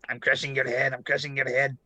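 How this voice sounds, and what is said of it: Imitates another person's voice. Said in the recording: “Here's my McKinney. ... That's a good one.”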